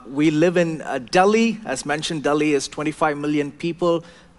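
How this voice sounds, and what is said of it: South Indian accent. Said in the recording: “I do have a southern accent, uh, but it's, uh, it's from the south of India”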